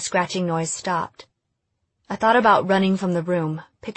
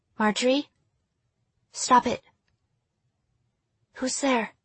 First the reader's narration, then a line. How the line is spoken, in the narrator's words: I whispered